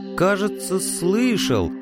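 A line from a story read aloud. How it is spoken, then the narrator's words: Uncertain mutter. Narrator (Russian): неуверенно пробормотал певец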